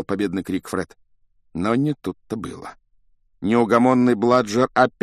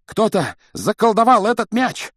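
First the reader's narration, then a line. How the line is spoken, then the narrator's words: Breathless shout. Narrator (Russian): Тяжело дыша, крикнул Фред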